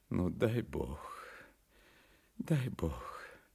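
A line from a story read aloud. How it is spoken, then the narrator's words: Mumbling. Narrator (Russian): забормотал он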